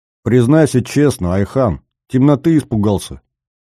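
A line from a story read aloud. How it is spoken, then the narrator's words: Smirking grunt. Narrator (Russian): хмыкнул Климов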